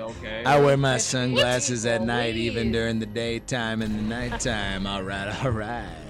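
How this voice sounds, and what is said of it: Matthew McConaughey impression. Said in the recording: “That's Matthew McConaughey.”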